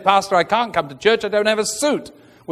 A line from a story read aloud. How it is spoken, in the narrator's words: was very quickly told